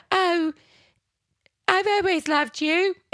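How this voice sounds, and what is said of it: Bad put-on British accent. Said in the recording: “This is her British accent. ... It was really bad. ... her British accent was it was embarrassing. It was atrocious.”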